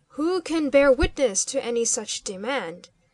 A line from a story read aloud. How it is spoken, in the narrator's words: sternly interposed the captain of the bodyguard, unable to listen longer in silence